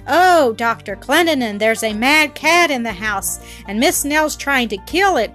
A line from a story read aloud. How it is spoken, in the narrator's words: cried the two women and Flora in chorus